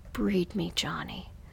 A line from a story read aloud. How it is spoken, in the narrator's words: whispered softly into his ear